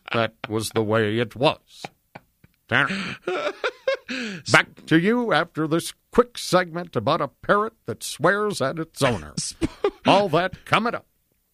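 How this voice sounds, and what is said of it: Walter Cronkite newscaster impression. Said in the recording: “Walter Cronkite impression ... Walter Cronkite was more like that.”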